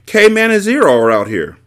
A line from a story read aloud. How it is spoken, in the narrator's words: Squid shouted back